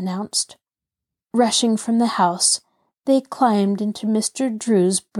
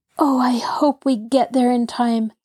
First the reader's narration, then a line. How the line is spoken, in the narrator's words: Lara breathed